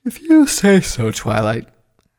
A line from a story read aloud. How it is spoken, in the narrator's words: Spike said with a yawn